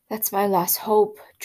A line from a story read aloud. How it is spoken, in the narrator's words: Jordan groaned